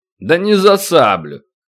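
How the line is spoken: Giant's dismissive snort. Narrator (Russian): хмыкнул великан

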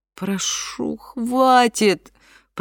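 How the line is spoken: Moaning. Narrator (Russian): простонала Дилейни

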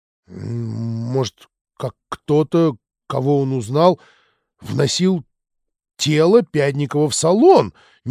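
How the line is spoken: Uncertain suggestion. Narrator (Russian): неуверенно предположил Кочкин

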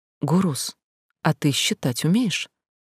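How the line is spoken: Quiet question. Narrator (Russian): она тихонько спросила брата

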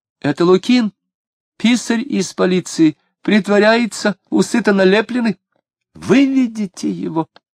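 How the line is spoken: Hysterical shriek. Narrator (Russian): Истерически взвизгнула Лидия

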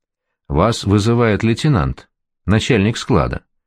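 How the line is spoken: Calm, knowing tone. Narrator (Russian): сказал спокойно, точно имел какую-то особую информацию

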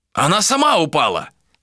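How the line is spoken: Exclamation. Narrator (Russian): воскликнул он

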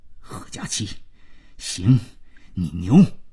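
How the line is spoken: Low voice. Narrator (Chinese): 他低声冲佳期说

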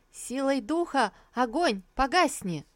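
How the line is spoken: Shouted incantation. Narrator (Russian): Лисусу крикнула

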